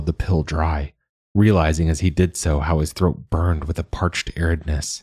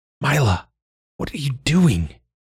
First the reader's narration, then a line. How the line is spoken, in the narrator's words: He hissed suddenly